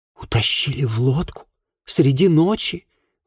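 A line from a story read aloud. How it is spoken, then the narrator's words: Young woman's horrified exclamation. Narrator (Russian): в ужасе воскликнула девушка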